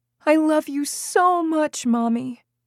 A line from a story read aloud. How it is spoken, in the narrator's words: He sobbed with relief, and said